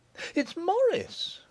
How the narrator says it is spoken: cried Julia, in a startled voice

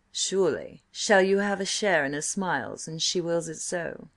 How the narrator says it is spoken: he purred

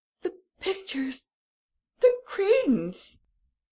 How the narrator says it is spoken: the Baron cried out

